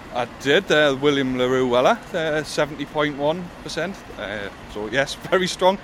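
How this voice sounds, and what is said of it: Geordie accent. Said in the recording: “you'll be glad to hear a real Geordie for a change ... However, I do have a Geordie accent.”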